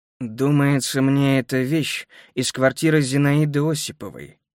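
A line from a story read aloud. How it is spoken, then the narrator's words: Through gritted teeth. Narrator (Russian): стиснув зубы, процедил Азаревич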